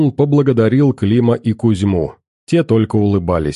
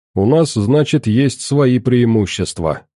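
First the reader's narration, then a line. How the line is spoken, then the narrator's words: Amused snort. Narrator (Russian): хмыкнул Клим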